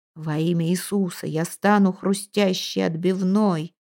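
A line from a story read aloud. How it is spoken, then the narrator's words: Old man's muffled wheeze. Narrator (Russian): хрипел старик, прижатый щекой к клетке линолеума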